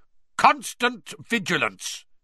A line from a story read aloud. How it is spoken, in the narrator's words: he barked